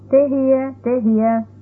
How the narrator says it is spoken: Then Tom, our hired man, called out

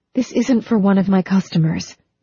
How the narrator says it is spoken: Phoebe pleaded

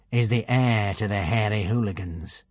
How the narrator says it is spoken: said Alvin grimly

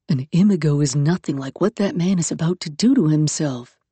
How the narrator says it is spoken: Yaskanda murmured in the back of her mind

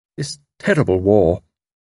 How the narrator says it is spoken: Perenna groaned and said

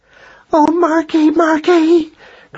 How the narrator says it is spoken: cried Madeline breathlessly

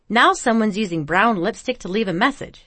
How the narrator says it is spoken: Winky scoffed

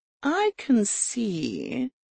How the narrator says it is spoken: she said slowly

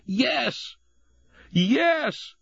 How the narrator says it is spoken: Jesse shouting

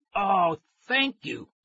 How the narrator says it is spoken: I cried

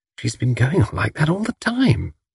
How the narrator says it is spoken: whispered Tuppence

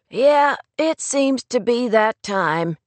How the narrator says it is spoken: he answered, yawning again

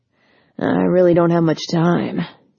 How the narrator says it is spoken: he grumbled, in a tone that indicated he in no way blamed her for the mix-up, but that he was frustrated by the inconvenience just the same

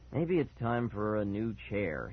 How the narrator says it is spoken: he muttered

